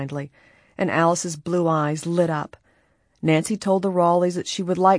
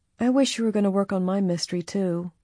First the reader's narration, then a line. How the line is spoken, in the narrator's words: Alice said wistfully